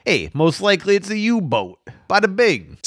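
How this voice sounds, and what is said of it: Brooklyn mob boss accent. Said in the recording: “mob boss like accent ... So it's like a New Yorker accent. ... Exactly. ... I think that's his only American accent is like Brooklyn.”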